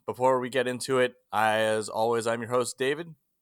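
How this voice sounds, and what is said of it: Announcer-style radio voice. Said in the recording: “doing the radio voice ... You were kind of doing the radio voice ... it's too early for the radio voice.”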